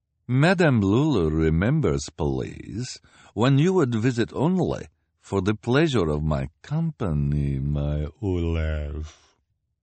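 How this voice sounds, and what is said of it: Character voice with strange accent. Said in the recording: “in her strange accent”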